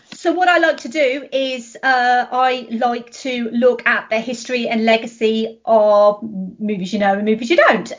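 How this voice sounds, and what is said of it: British accent. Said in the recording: “Well, I'm British. American people like the accent.”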